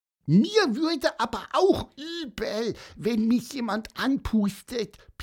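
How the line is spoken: Squeaky voice. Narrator (German): piepste Pieper

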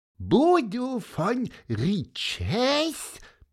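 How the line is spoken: Squeaky voice. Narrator (German): piepste Pieper

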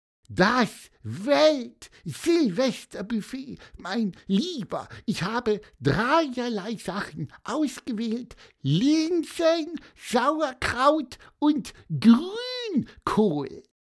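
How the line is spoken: Squeaked. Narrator (German): piepste Pieper

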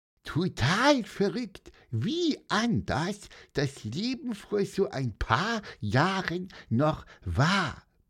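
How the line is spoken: Squeaky voice. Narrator (German): piepste Pieper

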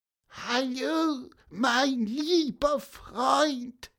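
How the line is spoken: Weak squeak. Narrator (German): piepste Pieper schwach

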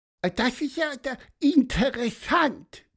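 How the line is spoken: Squeak. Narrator (German): piepste Pieper

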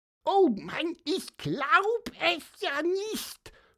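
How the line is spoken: Very loud squeak. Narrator (German): hörte man Pieper sehr laut piepen

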